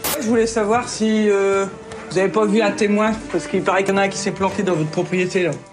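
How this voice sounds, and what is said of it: Strong Ch'ti northern French accent. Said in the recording (French): “une gendarme qui a un accent ch'ti, très prononcé”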